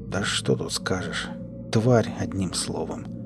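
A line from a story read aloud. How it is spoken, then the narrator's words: Quiet. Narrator (Russian): тихо произнес Клим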